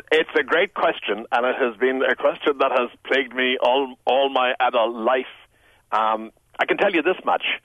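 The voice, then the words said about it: Polished Irish Tipperary accent. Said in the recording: “accent is eloquent ... how do you keep your accent so polished ... a Tipperary accent ... your beautiful accent”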